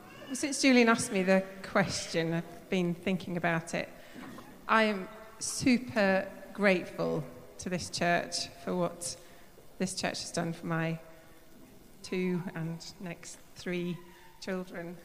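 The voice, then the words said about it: Voice affected by a cold. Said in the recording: “Excuse my voice, I've got a bit of a cold”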